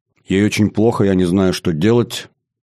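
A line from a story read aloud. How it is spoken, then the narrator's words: Flat impassive voice. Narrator (Russian): переводит Каляша бесстрастным голосом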